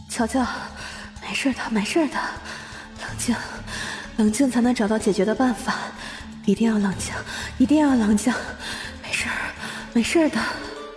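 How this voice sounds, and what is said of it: Trembling voice forcing itself calm. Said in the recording (Chinese): “他用发抖的又强迫自己镇定的声音说”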